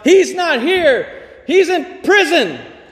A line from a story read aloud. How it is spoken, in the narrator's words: he confidently shouted out